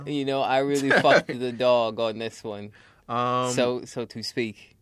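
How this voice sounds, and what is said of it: Bad fake British accent. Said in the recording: “that's my fake British accent, and it's really bad.”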